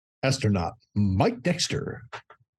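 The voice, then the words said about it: Deep announcer-style voice. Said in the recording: “in his deepest, sexy voice ... That was like a Sears salesman voice ... It was like a light Gen Con announcer ... doing a deep voice”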